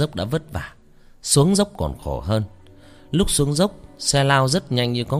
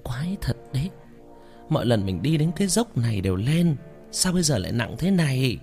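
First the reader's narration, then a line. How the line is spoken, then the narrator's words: Muttering to herself. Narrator (Vietnamese): lẩm bẩm tự nhủ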